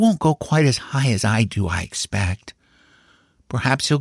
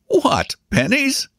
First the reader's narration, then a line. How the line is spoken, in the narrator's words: laughed the uncle